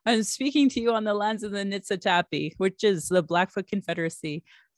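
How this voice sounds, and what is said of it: Southern American accent. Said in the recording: “Your Southern accent.”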